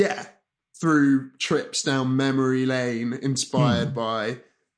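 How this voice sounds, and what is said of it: Usual voice. Nothing is said of it.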